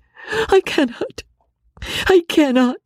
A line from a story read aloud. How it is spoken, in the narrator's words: cried Marianne